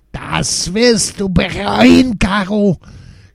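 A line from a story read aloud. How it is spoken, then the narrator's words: Screaming. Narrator (German): schrie sie weiter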